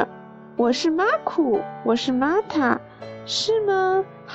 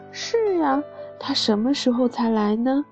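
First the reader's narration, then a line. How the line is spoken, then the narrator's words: Sighing. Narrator (Chinese): 玛塔叹了一口气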